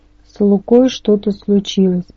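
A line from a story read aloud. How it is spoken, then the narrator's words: Muttered. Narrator (Russian): пробормотала Набет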